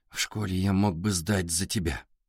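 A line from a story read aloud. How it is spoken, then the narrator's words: Whisper. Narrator (Russian): прошептал Артур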